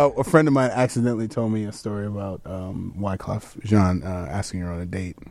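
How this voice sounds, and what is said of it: Usual voice. Nothing is said of it.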